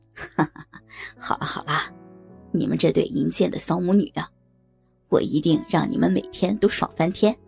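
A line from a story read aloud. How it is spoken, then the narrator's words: Laughing. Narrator (Chinese): 林婉如也笑着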